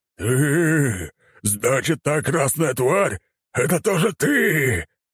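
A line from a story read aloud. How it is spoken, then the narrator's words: Hissed. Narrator (Russian): прошипел он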